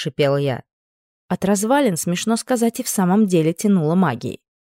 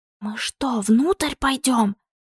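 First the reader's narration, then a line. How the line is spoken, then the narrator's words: Whisper. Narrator (Russian): прошептала Валерия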